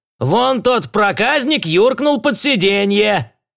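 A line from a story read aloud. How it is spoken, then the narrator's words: Shout. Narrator (Russian): крикнул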